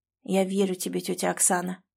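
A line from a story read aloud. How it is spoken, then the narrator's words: Quiet. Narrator (Russian): тихо сказал он ей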